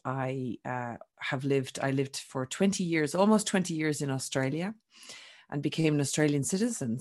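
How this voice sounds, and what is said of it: Irish accent. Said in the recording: “I'm Irish, for those that haven't picked up my accent”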